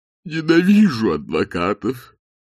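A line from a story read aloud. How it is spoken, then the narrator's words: Muffled, sad voice. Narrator (Russian): произнес голос из-под стула, прозвучавший как-то глухо и печально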